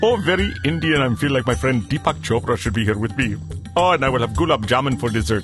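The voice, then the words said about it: Poor put-on Indian accent. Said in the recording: “I do a lousy Indian accent.”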